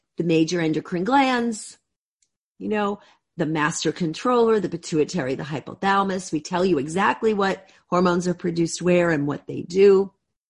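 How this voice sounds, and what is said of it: Strained, hoarse voice. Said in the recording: “I'm losing my voice at the end of this week.”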